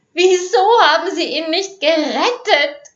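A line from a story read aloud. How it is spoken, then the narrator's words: Shrieked. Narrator (German): kreischte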